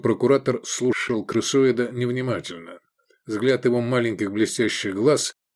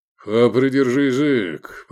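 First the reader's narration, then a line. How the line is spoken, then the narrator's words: Grumbled, official. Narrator (Russian): проворчал субпрокуратор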